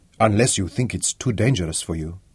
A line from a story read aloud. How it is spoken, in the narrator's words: the excitement went out of him as he asked quietly